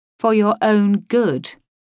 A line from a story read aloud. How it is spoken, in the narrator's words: I said indignantly